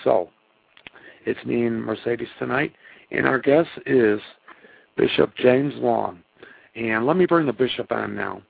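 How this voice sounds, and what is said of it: Hoarse voice. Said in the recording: “I'm a little hoarse... that's why my voice sounds the way it does tonight”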